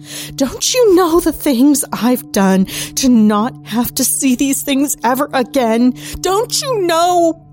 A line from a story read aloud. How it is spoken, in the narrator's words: sobbing